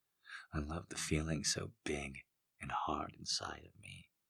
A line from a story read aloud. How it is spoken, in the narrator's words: she murmured